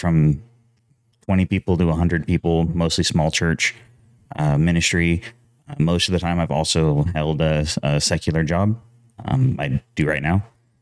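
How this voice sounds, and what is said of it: Smooth radio-style voice. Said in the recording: “you sound really great. Like you could be a radio guy ... You have that good radio voice ... he was just like so smooth ... you got that radio voice, man ... You have a podcasting voice”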